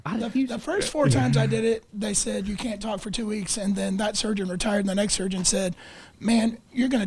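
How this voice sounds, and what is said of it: Damaged, abnormal-sounding speaking voice. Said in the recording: “does your voice go back to normal? ... It's never like it was before I had this ... It doesn't sound very good anymore ... I've never heard him talk normal.”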